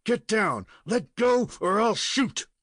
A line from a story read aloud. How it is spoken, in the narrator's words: he fairly shouted